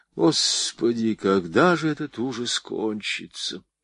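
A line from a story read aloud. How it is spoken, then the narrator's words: Heavy sigh. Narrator (Russian): тяжело вздохнула Мария Фоминишна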